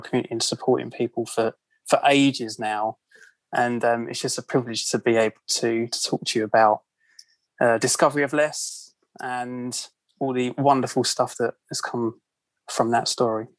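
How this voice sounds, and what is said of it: British English accent, Croydon. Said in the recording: “I love British accents ... in my accent ... Croydon isn't quite the same as Ealing accent”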